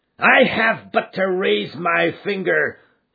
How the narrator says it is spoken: cried McGinty

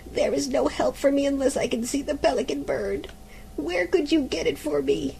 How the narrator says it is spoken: groaned the mother

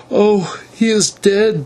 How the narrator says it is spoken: she moaned

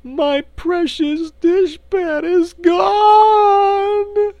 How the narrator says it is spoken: wailed

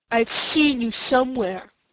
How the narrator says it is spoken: he said in a surly tone

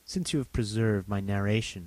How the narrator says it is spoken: said he

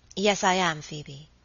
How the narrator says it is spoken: Lady Audley answered very quietly

